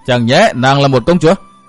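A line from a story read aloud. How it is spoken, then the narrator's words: Loud laughter. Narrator (Vietnamese): Hiên Viên Tam Quang cười lớn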